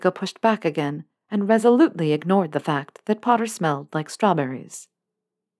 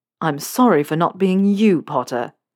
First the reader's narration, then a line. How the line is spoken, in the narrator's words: Draco spat, anger coming back in force